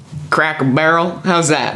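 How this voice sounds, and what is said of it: Put-on Southern American accent. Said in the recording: “Say it in a southern accent.”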